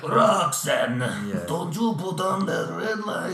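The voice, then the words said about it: Sung impression of a song rendition. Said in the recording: “I'm pretty impressed by my impressions ... do an impression ... It's the first time I've ever tried that. It's come out pretty well.”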